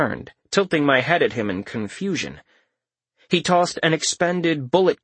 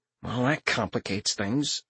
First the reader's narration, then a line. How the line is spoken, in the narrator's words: I mumbled